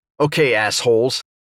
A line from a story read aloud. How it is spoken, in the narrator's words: spat